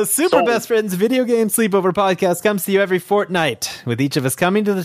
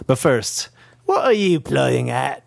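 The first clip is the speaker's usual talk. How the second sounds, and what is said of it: Terrible put-on Cockney accent. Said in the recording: “that terrible Cockney accent”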